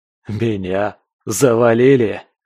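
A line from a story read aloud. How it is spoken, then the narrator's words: Pained laugh turning to cough. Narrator (Russian): Я попытался расхохотаться, но от прострелившей бок боли смех обернулся хриплым кашлем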